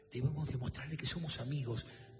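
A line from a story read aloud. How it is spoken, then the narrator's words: Whisper. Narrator (Spanish): susurró Sonia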